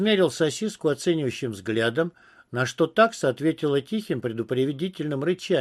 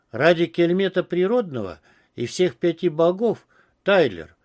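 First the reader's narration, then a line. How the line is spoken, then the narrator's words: Moaning. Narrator (Russian): простонал Пец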